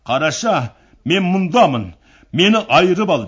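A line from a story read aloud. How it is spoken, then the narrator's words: Shouting. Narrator (Kazakh): Сол арада айғайлап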